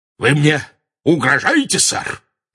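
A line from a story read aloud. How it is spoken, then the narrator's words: Very loud bark. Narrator (Russian): рявкнул он так громко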